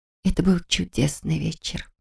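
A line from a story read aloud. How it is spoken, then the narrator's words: Whisper. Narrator (Russian): прошептала я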